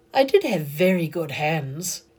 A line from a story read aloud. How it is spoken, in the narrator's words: said Tilly dreamily